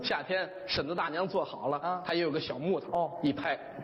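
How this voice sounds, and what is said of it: Put-on Northeastern Chinese dialect. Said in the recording (Chinese): “用东北话说起来，东北字儿、东北味儿特别有趣儿”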